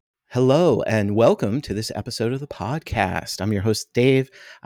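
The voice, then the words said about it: Put-on podcast host voice. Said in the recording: “trying to do my podcast voice.”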